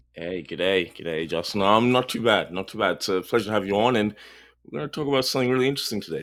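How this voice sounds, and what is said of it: Speaks with a noticeable accent. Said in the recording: “the man with the accent”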